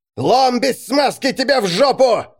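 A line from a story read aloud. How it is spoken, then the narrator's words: Yelled. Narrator (Russian): заорал Рихард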